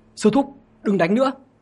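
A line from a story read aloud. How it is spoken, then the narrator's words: Anxious urgent shout. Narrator (Vietnamese): Trường Sinh lo lắng như lửa đốt, vội vàng hét lớn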